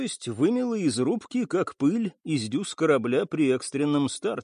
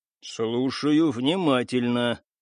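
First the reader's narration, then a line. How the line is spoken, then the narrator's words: Gloomy. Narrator (Russian): мрачно разрешил Стас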